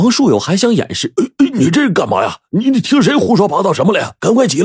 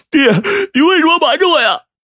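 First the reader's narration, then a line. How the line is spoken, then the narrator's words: Loud crying. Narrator (Chinese): 他大声哭道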